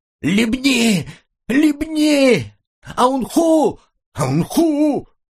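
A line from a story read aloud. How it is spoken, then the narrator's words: Woman screaming. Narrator (Russian): Она вопила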